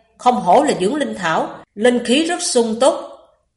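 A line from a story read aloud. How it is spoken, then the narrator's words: Sudden exclamation. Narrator (Vietnamese): Hắn ta vừa nhìn liền bật thốt lên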